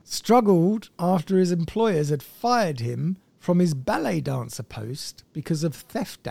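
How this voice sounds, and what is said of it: Usual voice. Nothing is said of it.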